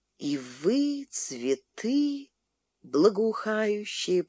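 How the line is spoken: Quiet repetition. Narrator (Russian): повторила негромко Муся

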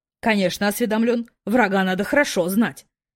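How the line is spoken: Father answering menacingly. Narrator (Russian): не менее грозно ответил папа

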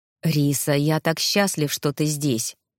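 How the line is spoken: Man's sudden passionate whisper. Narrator (Russian): вдруг страстно прошептал мужчина

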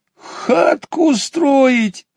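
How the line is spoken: Laughing. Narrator (Russian): рассмеялся ежик

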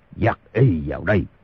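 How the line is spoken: Shouted. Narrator (Vietnamese): Thành Cát Tư Hãn quát

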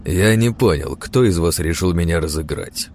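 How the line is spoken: Loud, cold question. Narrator (Russian): Все так же громко, но холодно спросил он

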